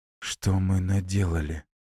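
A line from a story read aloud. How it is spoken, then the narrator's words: Quiet question. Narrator (Russian): спрашивает тихо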